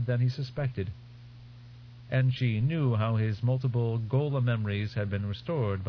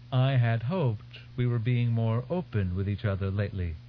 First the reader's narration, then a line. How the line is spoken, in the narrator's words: she said